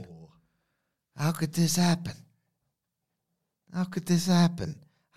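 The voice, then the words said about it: Bad impression of another person's voice. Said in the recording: “a very bad Tony Soprano impression”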